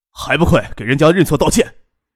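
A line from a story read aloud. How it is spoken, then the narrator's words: Stern harsh scolding. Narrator (Chinese): 陈奎厉声呵斥道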